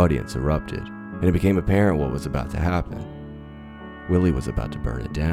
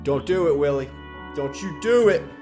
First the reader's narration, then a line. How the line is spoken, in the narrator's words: A voice behind me screamed